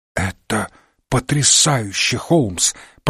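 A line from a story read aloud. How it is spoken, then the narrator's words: Excited whisper. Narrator (Russian): прошептал взволнованный до нельзя Уотсон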